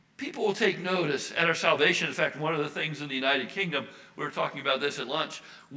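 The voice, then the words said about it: American accent. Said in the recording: “we do not have a British accent ... we don't have a British accent ... with the American accent”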